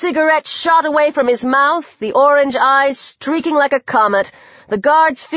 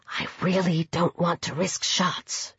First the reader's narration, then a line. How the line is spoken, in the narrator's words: she whispered